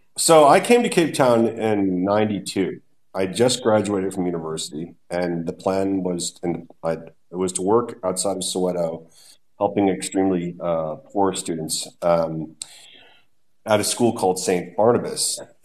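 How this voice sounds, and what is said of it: Noticeable non-local accent. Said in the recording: “as everyone can hear from your accent”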